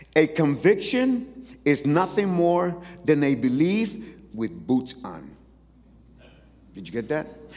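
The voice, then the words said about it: Speaker's own accent coming through. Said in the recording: “My accent's coming out.”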